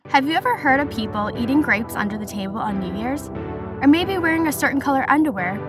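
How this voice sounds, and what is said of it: Weird-sounding voice, recovering from illness. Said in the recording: “my voice is very weird this episode. I'm still recovering from being sick.”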